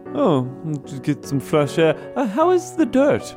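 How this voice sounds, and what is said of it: Pretentious put-on character accent. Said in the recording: “What is this new accent you have? ... You're talking differently. ... This is how bookworms talk.”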